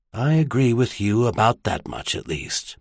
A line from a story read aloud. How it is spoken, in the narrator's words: Merlin sighed